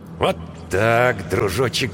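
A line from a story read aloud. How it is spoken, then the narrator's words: Mumbled. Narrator (Russian): бормотал капитан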